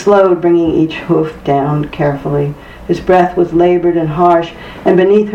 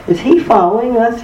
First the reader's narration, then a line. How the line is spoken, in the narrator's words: he asked